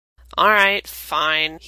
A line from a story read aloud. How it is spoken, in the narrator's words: he grumbles